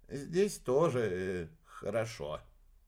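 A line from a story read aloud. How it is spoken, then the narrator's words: Drawling. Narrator (Russian): протянул алхимик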